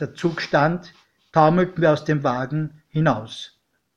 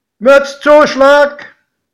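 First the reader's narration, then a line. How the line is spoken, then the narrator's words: Called out, conductor. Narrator (German): rief der Schaffner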